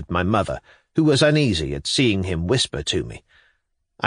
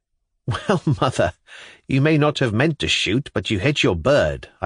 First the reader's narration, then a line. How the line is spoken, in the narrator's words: I cried, laughing too